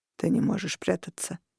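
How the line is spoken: Quiet. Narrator (Russian): тихо сказал Корнелиус

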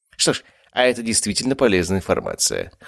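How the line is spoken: Wry snort. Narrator (Russian): хмыкнул я

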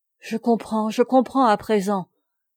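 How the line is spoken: Exclaiming. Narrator (French): s'écria Marguerite de Guerre

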